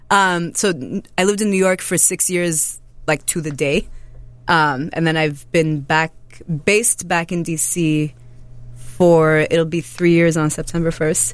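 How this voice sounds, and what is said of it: Mixed general Northeastern American accent. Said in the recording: “you have an interesting accent ... It's many, many things. ... It's like general Northeastern and also ethnic.”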